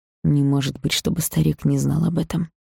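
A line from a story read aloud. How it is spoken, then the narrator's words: Through gritted teeth. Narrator (Russian): процедил Грейсон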